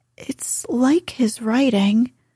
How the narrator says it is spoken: faltered Meg

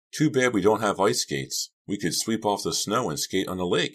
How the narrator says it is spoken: I cried, a bit overwhelmed by the unbelievable beauty of the scene

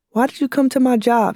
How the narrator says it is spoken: she screamed

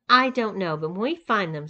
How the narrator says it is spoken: said Tyson

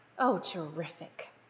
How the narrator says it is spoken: muttered Miss Bear

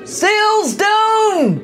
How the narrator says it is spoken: cried one pirate

